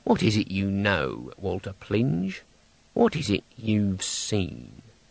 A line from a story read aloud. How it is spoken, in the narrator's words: said under her breath